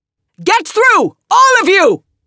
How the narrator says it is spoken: shouted Callista

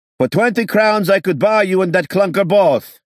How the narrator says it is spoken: Someone screamed back

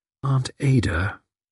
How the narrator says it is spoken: she added, softly, meditatively

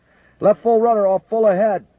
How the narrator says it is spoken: McConnell shouted

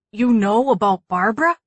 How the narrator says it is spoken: gasped

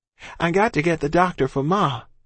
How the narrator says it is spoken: I cried

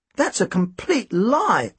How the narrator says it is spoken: I exclaimed

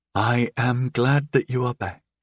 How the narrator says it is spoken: she said quietly, as if there were a risk of Victorine overhearing from one of the adjoining rooms

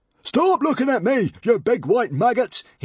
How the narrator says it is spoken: he yelled

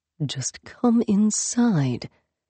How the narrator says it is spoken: he said under his breath

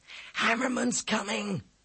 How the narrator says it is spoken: Ezzy gasped

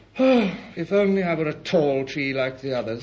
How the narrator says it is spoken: sighed the little fir

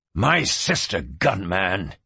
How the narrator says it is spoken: he hissed

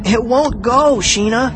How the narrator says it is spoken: I cried

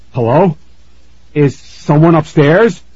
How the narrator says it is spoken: Aaron shouted

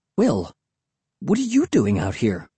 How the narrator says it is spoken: I asked breathlessly

